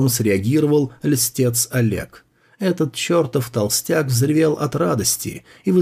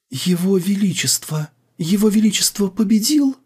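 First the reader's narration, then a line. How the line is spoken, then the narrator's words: Trembling voice. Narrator (Russian): Анджела спросила дрожащим голосом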